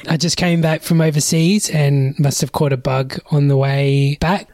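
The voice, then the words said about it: Hoarse, raspy voice. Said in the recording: “my voice is really shot ... sounding like I'm a pack-a-day smoker”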